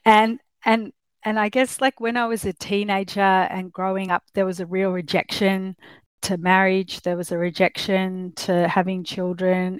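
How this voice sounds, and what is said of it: Australian accent. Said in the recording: “I'm obviously from Australia, you can tell with my accent.”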